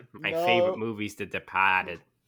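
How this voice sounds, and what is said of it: Put-on Boston accent. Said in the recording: “his Boston accent ... That was pretty good.”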